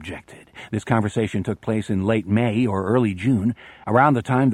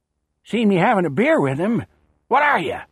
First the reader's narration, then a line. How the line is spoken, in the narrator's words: he'd rasped